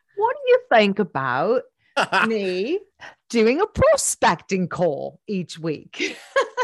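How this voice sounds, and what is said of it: Put-on British accent. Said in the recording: “should I do in my British accent? ... It's quite good, actually.”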